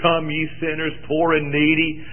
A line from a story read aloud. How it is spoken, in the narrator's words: I'd sing, the mower was roaring, I've got to sing above the mower, so I'd sing a little louder than the mower